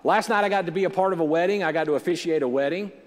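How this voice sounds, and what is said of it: Slightly strained, worn voice. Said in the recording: “my voice is a little shot”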